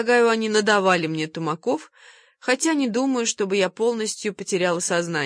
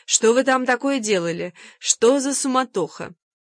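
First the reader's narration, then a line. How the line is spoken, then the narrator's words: Laughing merrily. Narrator (Russian): весело смеясь, спустилась Мэтч со словами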